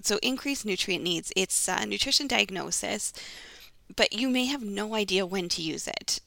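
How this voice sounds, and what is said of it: Raspy, congested voice. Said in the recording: “my voice today. It's a little raspy ... my voice is a little congested”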